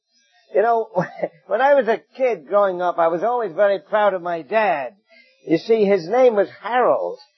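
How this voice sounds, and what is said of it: English accent. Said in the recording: “I hope you get my English accent a little bit”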